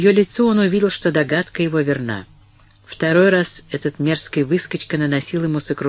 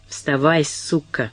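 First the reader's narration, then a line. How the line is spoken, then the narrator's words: Angry hiss. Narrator (Russian): прошипел он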